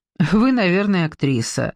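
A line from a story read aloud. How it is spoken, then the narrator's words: Asking after laughing. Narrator (Russian): спросил он, отсмеявшись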